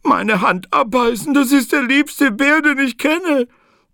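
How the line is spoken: Sobbing. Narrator (German): sagte sie schluchzend

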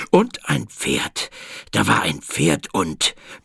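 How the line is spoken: King gasping. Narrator (German): keuchte der König

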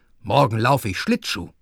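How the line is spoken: Plain. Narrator (German): sagte

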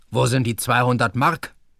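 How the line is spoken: Stern question. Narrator (German): fragte streng

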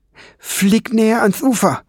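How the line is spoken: Called out. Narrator (German): rief Fliegenbein der Ratte zu

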